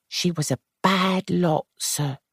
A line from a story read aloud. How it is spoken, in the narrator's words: she said quietly